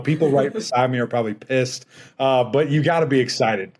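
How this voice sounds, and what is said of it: Yelling, loud excited voice. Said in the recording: “I'm yelling right now.”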